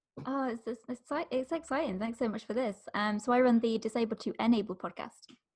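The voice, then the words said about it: Smooth British accent. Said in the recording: “the smooth British accent”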